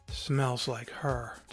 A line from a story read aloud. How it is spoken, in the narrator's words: sighed